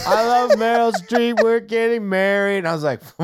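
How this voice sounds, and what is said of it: Sung imitation of another person's voice. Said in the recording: “that sounds just like Pierce Brosnan, man. That was a great impression of him singing.”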